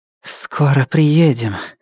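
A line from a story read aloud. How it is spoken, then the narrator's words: Breathed out. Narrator (Russian): выдохнула Нелит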